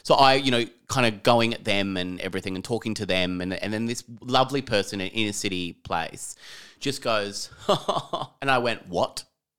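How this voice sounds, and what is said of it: Fairly strong Australian accent. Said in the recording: “my voice, sometimes people always think I'm a bit of a bogan or like I've got a bit of a stronger Australian accent”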